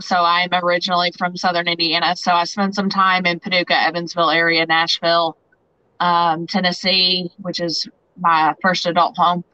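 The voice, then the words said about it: Southern American twang. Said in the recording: “you probably hear my twang.”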